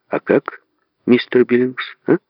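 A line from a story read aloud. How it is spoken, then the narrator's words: Gentle question. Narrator (Russian): мягко спросил Зигфрид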